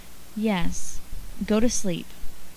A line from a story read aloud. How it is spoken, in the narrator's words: Stephen, already rolled up in a blanket and rapidly descending toward sleep, only murmured